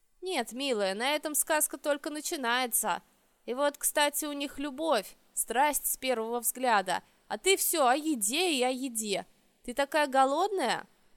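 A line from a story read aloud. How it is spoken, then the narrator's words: Rueful hungry reply. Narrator (Russian): Прислушавшись к недовольному ворчанию желудка, я сокрушенно ответила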